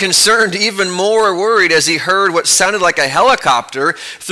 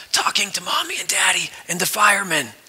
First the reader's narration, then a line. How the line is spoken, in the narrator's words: came the whispered answer